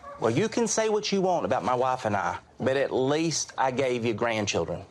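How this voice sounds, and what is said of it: Bakersfield Southern accent. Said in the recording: “performing as your own twin brother with a Southern accent, a classic Bakersfield Southern accent”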